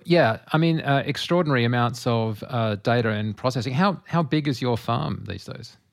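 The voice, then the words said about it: Australian accent. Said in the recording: “It's an Australian accent problem.”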